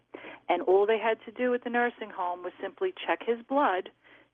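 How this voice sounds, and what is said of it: Brooklyn accent. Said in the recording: “a nice Brooklyn accent”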